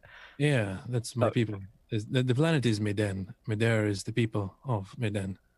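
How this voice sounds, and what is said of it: French-sounding accent. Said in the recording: “you have got an accent. Are you French?”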